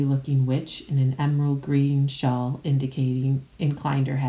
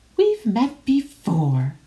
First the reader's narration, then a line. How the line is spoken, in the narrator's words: squeaked the excitable Diggle